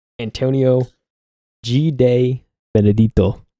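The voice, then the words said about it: Name pronounced with put-on accent. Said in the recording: “Said a little bit of accent. ... It sounded good. ... I don't know if it's right”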